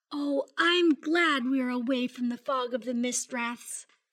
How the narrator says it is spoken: Grayson sighed and then said

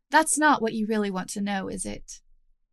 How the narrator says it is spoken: Her tone was mild, her words acid-tipped and unforgiving

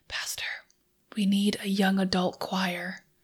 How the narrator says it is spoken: Amanda, one of our young adults, whispered

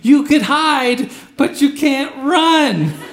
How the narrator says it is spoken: I run after him screaming

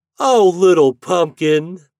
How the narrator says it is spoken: they cried

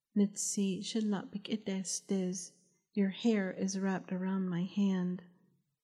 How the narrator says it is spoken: Hashké Yił Naabaah hoarsely whispered

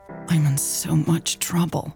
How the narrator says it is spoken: she muttered to herself

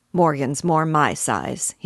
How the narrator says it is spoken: said, grumbling fashion

